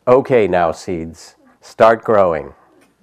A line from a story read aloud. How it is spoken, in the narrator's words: Toad put his head close to the ground and said loudly